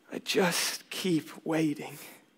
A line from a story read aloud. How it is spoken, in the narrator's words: He grows teary-eyed and says quietly